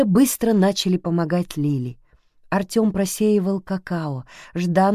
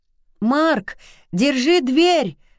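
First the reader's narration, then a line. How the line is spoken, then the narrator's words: Shouted. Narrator (Russian): закричал Артём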